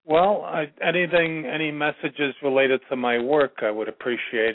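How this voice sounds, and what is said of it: New York accent. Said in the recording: “I can still hear the New Yorker in you.”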